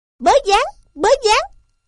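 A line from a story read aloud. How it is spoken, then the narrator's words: Faint distant murmuring. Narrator (Vietnamese): văng vẳng ra những tiếng lí nhí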